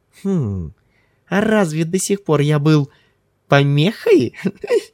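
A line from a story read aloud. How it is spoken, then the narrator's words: Boyish giggling question. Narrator (Russian): спросил Ким, по-мальчишески хихикнув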